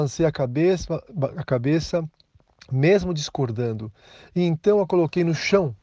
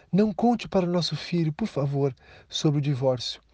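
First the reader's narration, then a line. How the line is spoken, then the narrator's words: Soft quiet voice. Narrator (Portuguese): Ela fechou os olhos e disse baixinho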